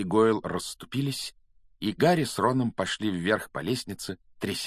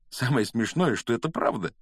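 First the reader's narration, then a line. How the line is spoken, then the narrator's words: Giggling. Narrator (Russian): хихикнул Гарри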